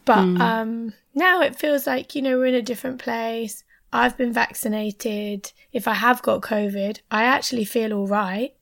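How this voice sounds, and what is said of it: Hoarse, strained voice. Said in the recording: “I've lost my voice. I've got a bit of a sore throat”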